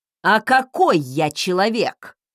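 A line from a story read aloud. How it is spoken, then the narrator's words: Barking. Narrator (Russian): рявкнул он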